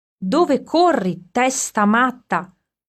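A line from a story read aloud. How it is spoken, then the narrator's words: Shepherd shouting. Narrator (Italian): gridò Erminio, il pastore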